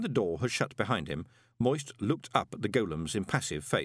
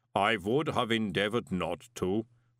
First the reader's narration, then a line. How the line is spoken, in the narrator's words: golem rumbled